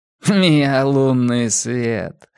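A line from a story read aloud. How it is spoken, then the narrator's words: Laughing. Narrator (Russian): рассмеялся Чарли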